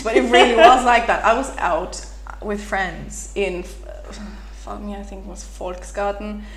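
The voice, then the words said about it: Irish accent. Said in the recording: “You sound so much like her... you totally sound like her... my Irish accent”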